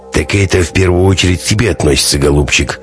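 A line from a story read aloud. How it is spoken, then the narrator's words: Grumbling mutter. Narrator (Russian): пробурчал Прокопыч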